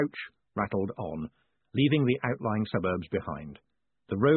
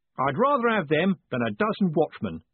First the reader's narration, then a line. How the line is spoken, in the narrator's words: said Jim happily